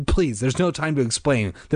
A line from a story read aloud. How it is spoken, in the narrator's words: their father said urgently